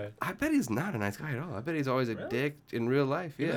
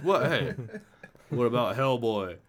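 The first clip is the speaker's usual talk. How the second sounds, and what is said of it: Imitates another person's voice. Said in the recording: “That's my Ron Perlman impression. I'm working on it. It's coming along.”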